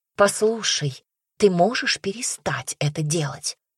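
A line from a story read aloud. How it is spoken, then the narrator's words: Whispered. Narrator (Russian): Шепотом обратилась она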